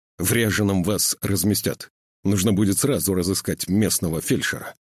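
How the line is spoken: Sharp, clipped speech. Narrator (Russian): говорит он резко, отрывисто, откусывая куски слов

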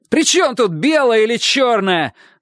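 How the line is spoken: Yell. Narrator (Russian): заорал Чик

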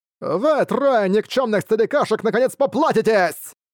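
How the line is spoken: Low grim shout. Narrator (Russian): Лицо Чэньзы помрачнело, глядя на приближающегося Сутунаня, он низко выкрикнул

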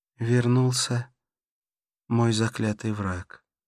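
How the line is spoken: Sighing. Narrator (Russian): вздохнула

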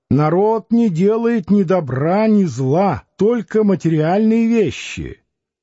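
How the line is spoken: Shouting. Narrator (Russian): Дударова кричала

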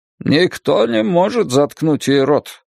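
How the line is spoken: Distant grumbling. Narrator (Russian): пробурчал Крис Ортега из хвостовой части салона

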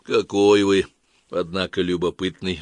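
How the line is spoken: Sighing. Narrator (Russian): вздохнул Белов

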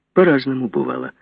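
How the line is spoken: Plain. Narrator (Russian): ответил Бодунов

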